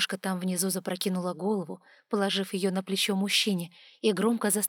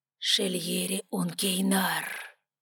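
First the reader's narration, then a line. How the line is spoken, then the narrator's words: Hoarse wheeze. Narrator (Russian): Алан прохрипев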